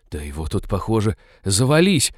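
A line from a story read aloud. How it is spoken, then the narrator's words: Awed whisper. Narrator (Russian): благоговейно прошептала Молли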